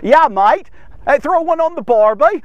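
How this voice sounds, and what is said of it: Bad put-on Australian accent. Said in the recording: “He was from Australia. ... I know it's a terrible accent.”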